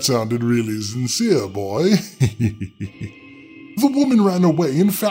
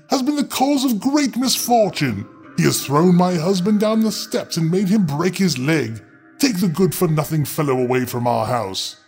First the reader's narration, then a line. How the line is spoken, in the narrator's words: cried she